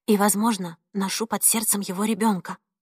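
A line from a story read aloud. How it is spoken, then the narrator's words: Barely audible. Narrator (Russian): едва слышно произнесла она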